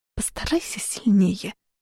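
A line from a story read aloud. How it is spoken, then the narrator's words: Muttered. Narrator (Russian): пробормотала я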